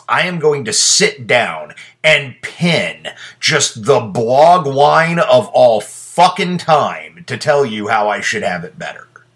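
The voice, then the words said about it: Angry ranting delivery. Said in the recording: “I sound angry”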